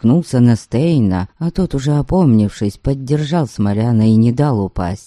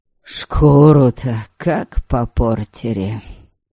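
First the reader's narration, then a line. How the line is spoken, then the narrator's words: Exhaled. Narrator (Russian): Наконец выдохнул Смолян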